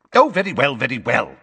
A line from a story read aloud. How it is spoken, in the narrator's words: snapped Fudge